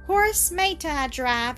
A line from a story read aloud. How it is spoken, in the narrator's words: asked Anna in a whining tone